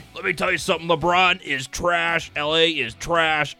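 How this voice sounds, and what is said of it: Imitates another person's voice. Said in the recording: “my Jim Rome impression ... probably the worst Jim Rome impression I've ever heard”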